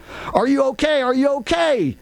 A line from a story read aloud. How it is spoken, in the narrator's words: Picard shouted at the three of us